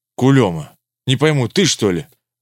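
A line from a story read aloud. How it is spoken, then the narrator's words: Exclamation. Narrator (Russian): воскликнул Иван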